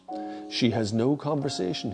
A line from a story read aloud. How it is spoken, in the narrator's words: he said